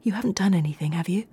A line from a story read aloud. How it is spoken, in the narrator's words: Carla nervously and quietly asked Craig